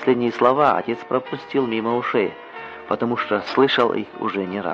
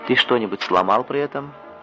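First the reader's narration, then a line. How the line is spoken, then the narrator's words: Plain. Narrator (Russian): спросил отец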